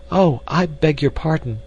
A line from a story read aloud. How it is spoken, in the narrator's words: she exclaimed